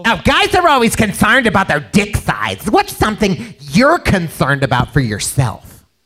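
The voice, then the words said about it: Bitchy put-on female voice. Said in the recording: “Where's your female voice? ... I got to do a different female voice now. ... I'm gonna try bitchy here.”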